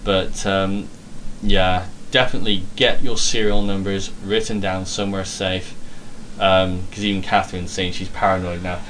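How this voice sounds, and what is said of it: British accent. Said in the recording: “the way that Brits say puma ... he couldn't understand what I was saying with my accent”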